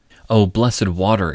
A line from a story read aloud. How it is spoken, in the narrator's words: exclaimed Midas